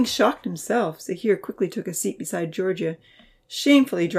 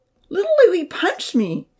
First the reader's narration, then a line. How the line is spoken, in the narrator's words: Damien called out resentfully